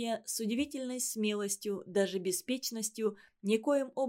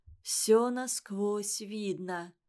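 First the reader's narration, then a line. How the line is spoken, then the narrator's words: Muffled voice. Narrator (Russian): глухо сказала Лариса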